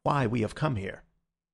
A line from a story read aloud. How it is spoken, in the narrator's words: he said in a low voice